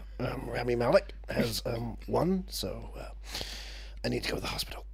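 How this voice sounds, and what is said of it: Usual voice. Nothing is said of it.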